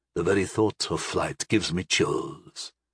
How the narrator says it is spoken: the raspy voice announced

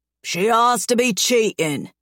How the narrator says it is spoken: Dem snarls

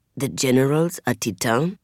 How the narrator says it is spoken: I whisper to Ojore

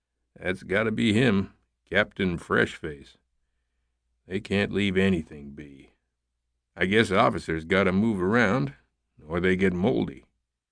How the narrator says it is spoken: Welch kept his voice low, said to Riley

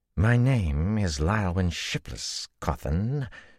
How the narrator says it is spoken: she drawled

